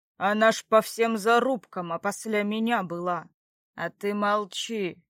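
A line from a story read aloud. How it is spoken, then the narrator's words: Menacing. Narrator (Russian): грозно вымолвил Братмир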